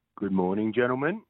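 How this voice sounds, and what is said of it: Slow, low-energy imitation of another person's voice. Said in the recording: “Oh, slow start for Doug. He's usually barreling in... my Richard Mercer impersonation”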